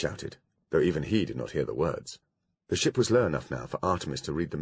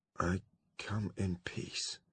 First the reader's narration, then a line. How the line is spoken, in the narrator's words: he mumbled